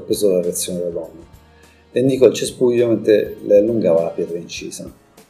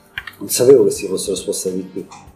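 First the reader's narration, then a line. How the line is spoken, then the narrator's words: Woman's murmur. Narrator (Italian): mormorò la donna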